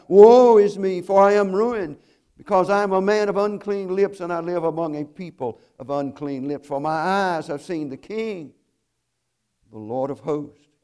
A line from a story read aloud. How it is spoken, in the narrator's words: He cried out